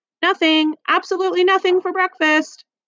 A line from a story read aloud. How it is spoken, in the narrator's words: cheerfully calling out